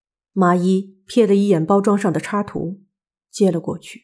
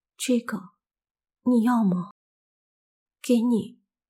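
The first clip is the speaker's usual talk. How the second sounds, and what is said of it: Trembling, shaky voice. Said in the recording (Chinese): “用颤抖的声音说”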